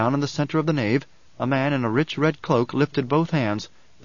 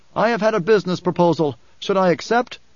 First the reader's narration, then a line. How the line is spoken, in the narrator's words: he shouted